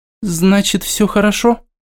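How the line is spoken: Timid question. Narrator (Russian): Робко спросила Ника

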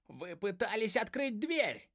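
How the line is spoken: Shrill squeal. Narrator (Russian): взвизгнул питон

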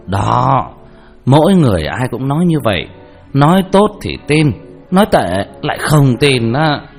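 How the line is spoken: Loud laughing. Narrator (Vietnamese): Vương Đạo Kiền cười to

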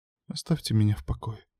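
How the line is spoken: Whisper. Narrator (Russian): прошептала

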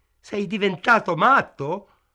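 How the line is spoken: Shouted. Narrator (Italian): gridò

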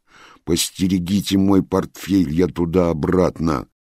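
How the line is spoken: Stern declaration. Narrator (Russian): строго заявил ему Алексей

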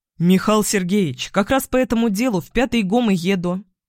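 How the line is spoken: Cheerful lie. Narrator (Russian): бодро соврал я

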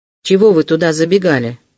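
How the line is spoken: Stern question. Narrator (Russian): строго спросил Вельчининов

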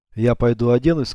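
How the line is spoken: Plain. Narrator (Russian): сказал Алексей

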